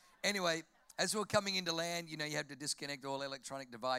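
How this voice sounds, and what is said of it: Usual voice. Nothing is said of it.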